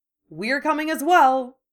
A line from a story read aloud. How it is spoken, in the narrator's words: Fred added cheerfully